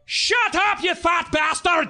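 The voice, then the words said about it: Quoted line in Scottish accent. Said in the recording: “It was a Scottish guy ... he had a Scottish accent”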